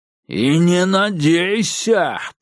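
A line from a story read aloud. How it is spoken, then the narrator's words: Growl. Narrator (Russian): прорычал Билл Сайкс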